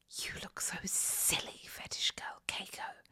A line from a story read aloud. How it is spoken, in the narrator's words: she whispered in my ear